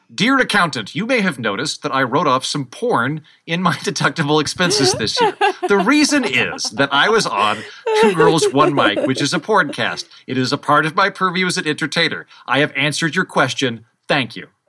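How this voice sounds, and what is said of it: Imitates another person's voice. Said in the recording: “my Patrick Stewart impression”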